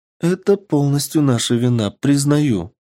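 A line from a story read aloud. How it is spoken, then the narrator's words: Heavy sigh, troubled reply. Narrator (Russian): ответила американка и тяжело вздохнула, потому как осознала масштаб проблемы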